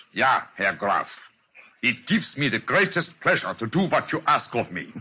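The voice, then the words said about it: Convincing put-on foreign accent. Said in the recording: “And my accent, you find it reasonably convincing? ... Oh, yeah, extremely so. Try it once again”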